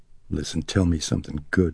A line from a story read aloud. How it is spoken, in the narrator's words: she huskily murmured